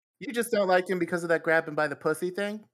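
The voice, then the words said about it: Put-on Brooklyn accent. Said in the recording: “are we giving this woman a Brooklyn accent”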